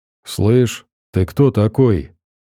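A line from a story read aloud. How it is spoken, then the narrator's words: Muffled, hollow voice. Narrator (Russian): Голос его звучал глухо, как из-под земли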